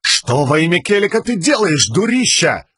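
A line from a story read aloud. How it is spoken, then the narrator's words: Screaming. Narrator (Russian): завопил он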